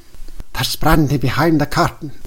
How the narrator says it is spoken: whispered the director

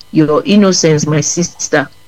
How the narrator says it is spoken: replied Christiana

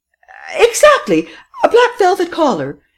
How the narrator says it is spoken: exclaimed Madame Renaud triumphantly

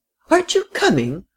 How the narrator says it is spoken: cried the frail, excitable little lady

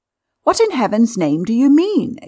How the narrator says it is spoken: exclaimed Stopford, starting up

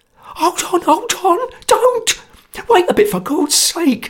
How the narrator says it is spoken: cried Sotcha in a sweat of terror

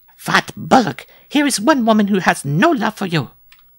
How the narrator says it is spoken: cried Mademoiselle Lupa

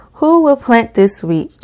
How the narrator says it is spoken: cried the little red hen

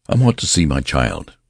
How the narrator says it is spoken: said Mr

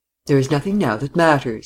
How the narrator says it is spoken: he said, adding quickly

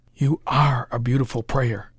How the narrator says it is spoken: whispered Parker

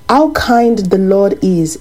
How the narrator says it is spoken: she exclaimed

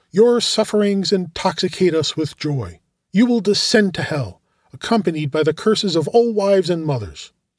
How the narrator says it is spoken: one of them exclaimed

